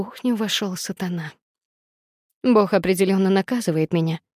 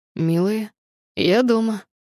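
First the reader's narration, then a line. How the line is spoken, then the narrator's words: Mocking low hoarse voice. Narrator (Russian): Раздался насмешливый низкий и хриплый голос, пришедший прямо из моих кошмаров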